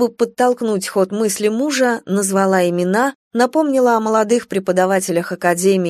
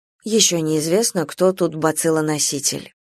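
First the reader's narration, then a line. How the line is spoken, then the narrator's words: Gruff mutter. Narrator (Russian): Анна Аркадьевна буркнула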